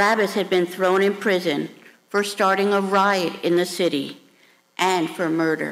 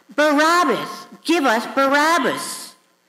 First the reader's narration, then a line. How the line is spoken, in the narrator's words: they kept shouting back